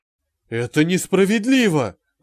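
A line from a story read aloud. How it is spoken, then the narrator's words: Pleading. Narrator (Russian): взмолился Гипс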